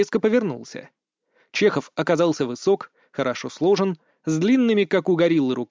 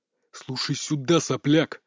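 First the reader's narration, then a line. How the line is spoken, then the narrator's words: Growl. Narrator (Russian): С рычанием Чехов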